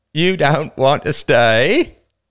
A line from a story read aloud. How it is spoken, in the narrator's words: repeated the older boy mockingly